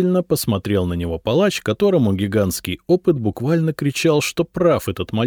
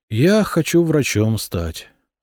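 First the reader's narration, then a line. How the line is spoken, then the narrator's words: Sighing. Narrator (Russian): вздохнул Берислав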